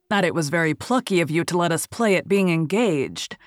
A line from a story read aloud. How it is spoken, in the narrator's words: said Raoul bitterly